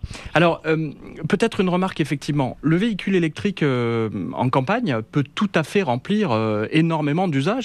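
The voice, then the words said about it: Slight regional French accent. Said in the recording (French): “J'avais senti le petit accent. ... Il y a un petit accent, ouais, il est là.”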